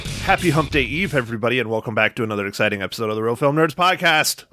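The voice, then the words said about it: Very fast speech. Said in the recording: “I said that pretty fast ... Dude, that was really fast ... I'm exhausted and I still said it fast.”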